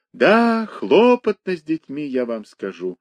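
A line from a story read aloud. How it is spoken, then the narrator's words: Sighing. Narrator (Russian): вздохнул Моисей Моисеевич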